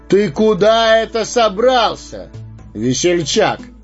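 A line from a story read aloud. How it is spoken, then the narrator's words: Thunderous shout. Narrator (Russian): громовым голосом вскричал странник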